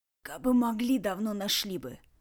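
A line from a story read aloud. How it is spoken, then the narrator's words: Wheeze from the floor. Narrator (Russian): просипел с пола Ред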